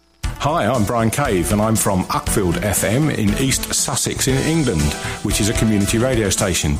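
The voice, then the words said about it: Genuine East Sussex English accent. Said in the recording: “That was a good East Sussex accent. ... I think that's quite genuine, that.”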